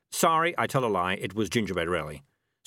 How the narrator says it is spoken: said Morris quickly

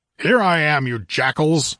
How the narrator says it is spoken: roared the Cimmerian

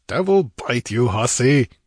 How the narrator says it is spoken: growled disgustedly

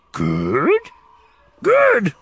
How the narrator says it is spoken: squeals the little creature

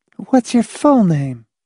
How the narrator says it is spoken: He sighed

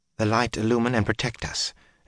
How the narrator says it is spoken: Elaine muttered in a faint voice

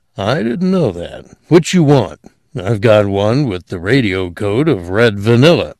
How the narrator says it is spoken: he chuckled

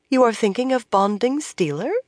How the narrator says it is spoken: Moiraine asked in an innocent voice

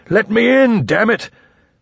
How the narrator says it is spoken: One Eye roared up

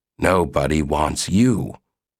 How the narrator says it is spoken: Gossam grumbled

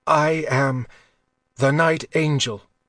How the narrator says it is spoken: said, gasping on the steel through his lung

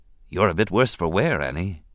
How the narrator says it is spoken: he said softly

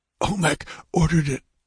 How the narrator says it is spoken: gasped the dying man

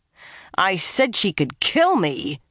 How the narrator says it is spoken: she snarled at it

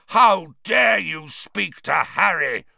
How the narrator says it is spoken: roared Black

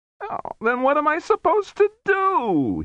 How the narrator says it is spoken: He wailed

